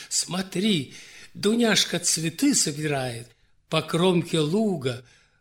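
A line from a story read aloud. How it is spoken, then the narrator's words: Agreeing exclamation. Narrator (Russian): поддержала ее Мария Штрауден, воскликнула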